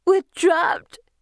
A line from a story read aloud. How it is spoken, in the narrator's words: she sobs